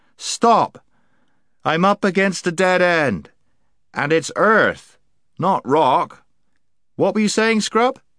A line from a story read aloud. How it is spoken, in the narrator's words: Puddleglum called out